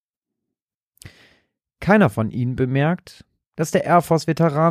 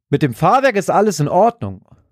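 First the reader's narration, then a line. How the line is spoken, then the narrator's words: Triumphant call. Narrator (German): ruft Stan triumphierend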